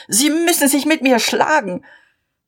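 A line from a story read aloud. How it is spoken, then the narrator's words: Shouting. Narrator (German): schrie er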